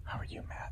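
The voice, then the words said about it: Talking low and quietly. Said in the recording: “Why am I talking so low? ... Because you don't want to wake the neighbors.”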